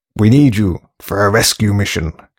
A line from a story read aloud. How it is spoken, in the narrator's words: growled Grace in mock seriousness